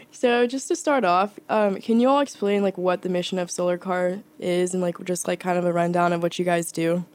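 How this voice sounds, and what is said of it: Rough, unwell-sounding voice. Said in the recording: “my voice sounds really kind of gross right now”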